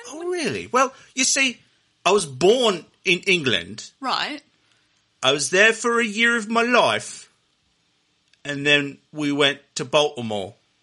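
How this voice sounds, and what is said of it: British accent. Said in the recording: “you have a British accent”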